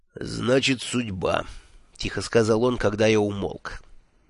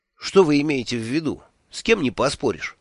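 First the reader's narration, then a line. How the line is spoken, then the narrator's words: Almost angry question. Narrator (Russian): почти сердито спросил я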